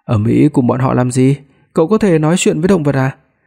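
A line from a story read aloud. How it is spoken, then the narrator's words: Quiet, grimacing. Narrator (Vietnamese): Ngũ Y nhăn mặt, nhỏ giọng nói với Hàn Giang Đình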